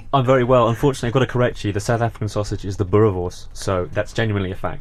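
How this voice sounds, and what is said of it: Posh cut-glass English accent. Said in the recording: “despite your cut-class English accent? ... despite the Radio 4 voice”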